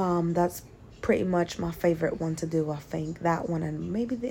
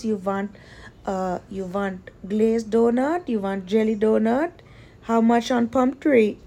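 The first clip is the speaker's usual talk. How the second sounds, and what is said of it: Put-on Indian accent. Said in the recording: “in English, I can talk like Indian. I can do like this.”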